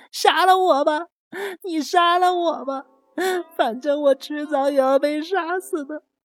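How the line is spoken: Sudden loud wailing. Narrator (Chinese): 八千代突然间大声的哭喊着

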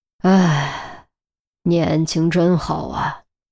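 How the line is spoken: Sighing wistfully to himself. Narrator (Chinese): 叹了口气，慨然自语

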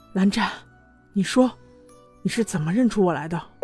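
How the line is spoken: Soft, intimate whisper. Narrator (Chinese): 用只有两个人能听到的声音轻轻问他

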